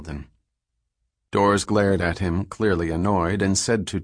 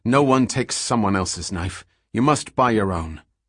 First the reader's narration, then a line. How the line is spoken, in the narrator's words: Cecilia said quickly